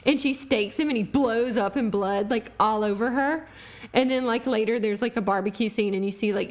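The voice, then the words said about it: Thick accent. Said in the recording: “my accent gets really thick when I'm tired”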